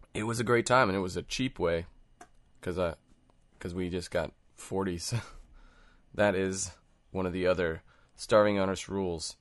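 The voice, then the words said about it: Hungover, rough-sounding voice. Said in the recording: “Nursing a hangover, as you can probably hear by my voice”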